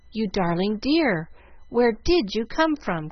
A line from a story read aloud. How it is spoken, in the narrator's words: cried Jill